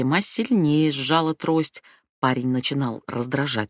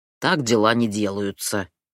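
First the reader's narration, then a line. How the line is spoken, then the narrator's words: Grumbling. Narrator (Russian): заворчал Халид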